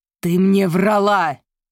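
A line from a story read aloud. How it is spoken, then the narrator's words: Growling. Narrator (Russian): прорычал он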